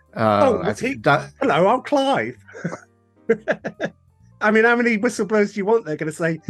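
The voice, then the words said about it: Put-on West London accent. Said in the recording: “Explain the accent there? Is the CIA whistleblower from Chiswick or something?”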